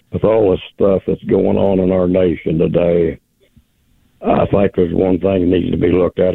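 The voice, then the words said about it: Hoarse voice. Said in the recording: “excuse my hoarse voice.”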